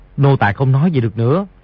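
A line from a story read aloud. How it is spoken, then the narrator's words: Lowered voice. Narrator (Vietnamese): Vì tiểu bảo hạ giọng nói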